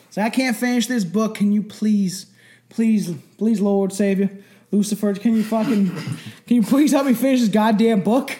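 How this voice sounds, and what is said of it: Put-on Kentucky accent. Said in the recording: “Why has he got a Kentucky accent? ... It's the only accent I can kind of do”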